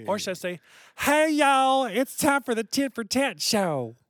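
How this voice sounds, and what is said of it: Put-on Southern accent. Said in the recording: “You can't say yay with an accent. ... That's just Nelly. That's not Southern.”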